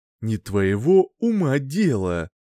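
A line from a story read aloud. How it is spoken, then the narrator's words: Through gritted teeth. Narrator (Russian): процедил Эзра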